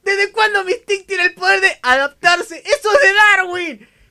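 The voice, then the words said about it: Shouting. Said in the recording (Spanish): “no grites.”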